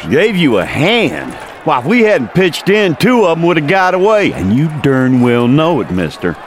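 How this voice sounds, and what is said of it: Texas accent. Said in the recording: “Is that a Texas accent I hear? ... Texas born, bred, and forever.”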